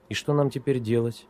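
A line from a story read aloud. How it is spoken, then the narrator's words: Quiet question. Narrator (Russian): тихо спросила Оля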